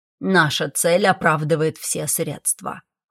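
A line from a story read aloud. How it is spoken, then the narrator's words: Cold, clipped dragon voice. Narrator (Russian): холодно отчеканил дракон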